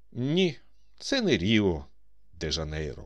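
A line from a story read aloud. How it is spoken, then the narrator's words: More convincing tone. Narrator (Ukrainian): Приїжджий ще переконливішим тоном промовив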